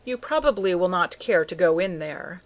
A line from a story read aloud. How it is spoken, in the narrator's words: said the doctor